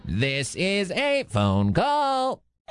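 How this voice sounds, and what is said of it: Robot voice. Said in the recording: “doing a little robot voice.”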